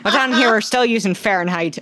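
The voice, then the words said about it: Weird half-Irish accent. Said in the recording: “in, like, a weirdly half-Irish accent”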